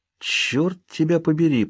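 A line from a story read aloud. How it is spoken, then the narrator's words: Muttered. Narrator (Russian): пробормотал я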